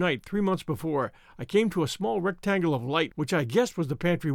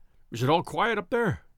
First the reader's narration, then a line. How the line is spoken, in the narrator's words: he asked, anxiously